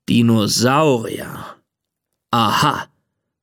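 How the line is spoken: Growling. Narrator (German): knurrt Papa

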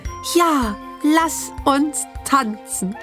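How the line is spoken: Plain. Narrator (German): antwortete Lilifee

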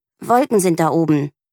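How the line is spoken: Growl. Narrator (German): knurrt Mieke

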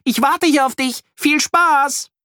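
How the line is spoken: Calling out. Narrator (German): ruft

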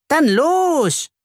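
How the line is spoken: Calls out. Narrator (German): ruft Ralf

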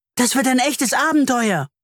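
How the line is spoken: Called out. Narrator (German): ruft Leo

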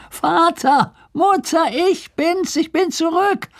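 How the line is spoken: Calling from afar. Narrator (German): rief er von Weitem

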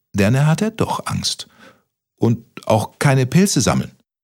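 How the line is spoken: Stuttering. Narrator (German): stotterte Kaspermütze

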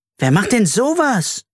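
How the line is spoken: Indignant exclaiming. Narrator (German): rief Carla empört

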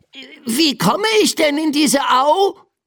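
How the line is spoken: Called out. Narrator (German): rief Biff

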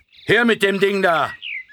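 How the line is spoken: Gruff call. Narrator (German): eine barsche Stimme rief

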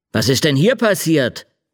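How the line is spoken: Called out. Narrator (German): rief er

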